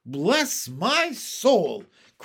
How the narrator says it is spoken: cried the head of the fire department

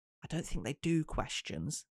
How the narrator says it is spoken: Gemma murmured back

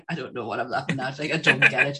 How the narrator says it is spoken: you start laughing along with them, and you're like

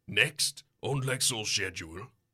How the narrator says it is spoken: he says flatly

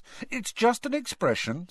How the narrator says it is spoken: said Ron hastily

